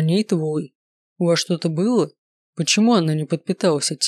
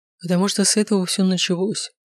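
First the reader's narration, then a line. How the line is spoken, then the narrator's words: Sighing. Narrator (Russian): вздохнул Данте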